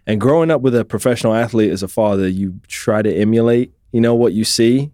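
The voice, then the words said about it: British accent, not American. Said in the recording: “I don't have an Oklahoma accent. I was raised in the UK”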